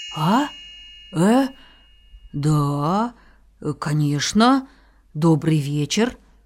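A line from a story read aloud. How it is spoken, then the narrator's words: Stammering, awkward man. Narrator (Russian): сказал, запинаясь человек, с трудом приспосабливаясь к разговору с червячком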